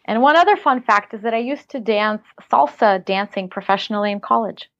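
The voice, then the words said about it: Slight Russian accent. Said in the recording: “You might hear a slight accent because I was born in Siberia, Russia, and I came to the U.S. when I was 12.”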